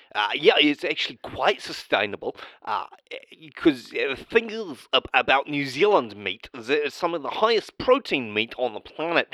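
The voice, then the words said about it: Silly put-on accent. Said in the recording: “put on an accent ... I'm just going to put on the silly accent”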